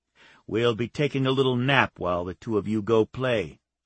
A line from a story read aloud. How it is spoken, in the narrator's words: Wyatt said